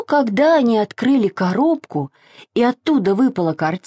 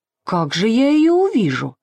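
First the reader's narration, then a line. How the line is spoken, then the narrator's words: Plain. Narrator (Russian): сказала продавщица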